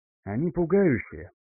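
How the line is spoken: Quiet. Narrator (Russian): тихо произнес архимаг

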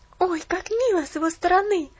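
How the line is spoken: Exclaimed. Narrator (Russian): воскликнула Пуляна

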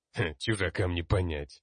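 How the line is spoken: Scornful snort. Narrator (Russian): фыркнул ярл

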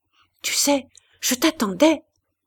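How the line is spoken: Murmured. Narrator (French): murmurait Lucien

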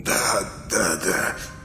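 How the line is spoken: Whisper. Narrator (Russian): шептал он

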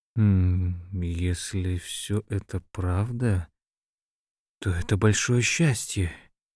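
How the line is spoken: Quiet. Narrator (Russian): Эрвин тихо произнес

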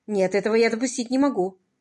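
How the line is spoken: Hurried. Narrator (Russian): торопливо сказал он

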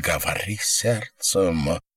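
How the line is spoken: Whisper. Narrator (Russian): прошептал Нейландс

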